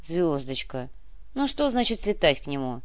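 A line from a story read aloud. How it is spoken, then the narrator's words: Weary sigh. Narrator (Russian): Устало вздохнул Куприянов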